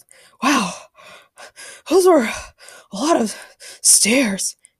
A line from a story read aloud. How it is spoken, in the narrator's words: panted Ray